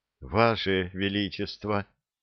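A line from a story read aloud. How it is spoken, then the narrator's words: Quiet crying. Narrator (Russian): тихо заплакала Элия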